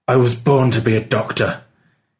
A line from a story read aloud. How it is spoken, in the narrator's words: he said through gritted teeth